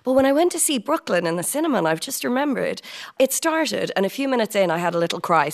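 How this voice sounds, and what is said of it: Irish accent. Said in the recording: “I flip between these two places, London and Dublin ... I've never lost my accent,”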